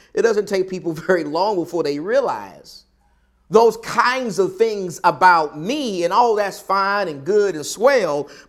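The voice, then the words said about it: Southern American accent. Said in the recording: “I'm from the South because of my accent.”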